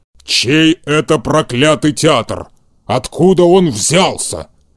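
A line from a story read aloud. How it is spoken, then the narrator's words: Growling. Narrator (Russian): прорычал Карабас-Барабас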